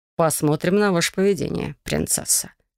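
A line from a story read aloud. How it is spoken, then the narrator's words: Amused snort. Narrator (Russian): хмыкнул он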